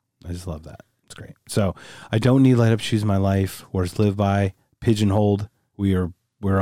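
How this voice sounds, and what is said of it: Usual voice. Nothing is said of it.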